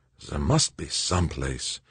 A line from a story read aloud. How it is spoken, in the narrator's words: Zimmerman muttered